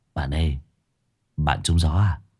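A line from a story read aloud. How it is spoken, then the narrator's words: Low voice. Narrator (Vietnamese): thằng Phong liền nhỏ giọng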